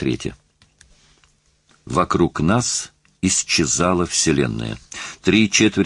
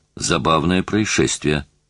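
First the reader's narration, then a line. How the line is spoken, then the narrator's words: Plain. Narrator (Russian): сказал Осима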